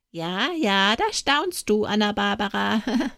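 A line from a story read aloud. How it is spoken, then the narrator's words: Giggling. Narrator (German): kicherte der Hans Geiz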